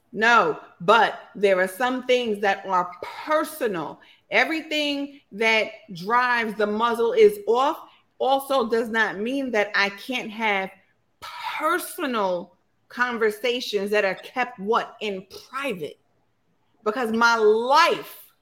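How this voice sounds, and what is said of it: Preacher-style delivery. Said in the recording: “Are you using your preacher voice?”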